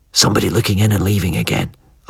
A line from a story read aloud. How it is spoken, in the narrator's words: I whispered